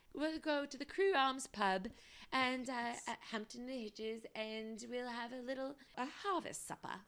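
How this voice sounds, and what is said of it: Weak put-on British accent. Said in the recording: “not great at accents”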